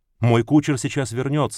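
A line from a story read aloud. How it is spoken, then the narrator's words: Plain. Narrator (Russian): сказал барон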